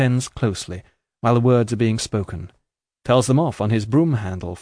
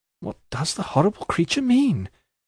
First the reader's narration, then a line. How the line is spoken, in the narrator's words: exclaimed the servant, recoiling from him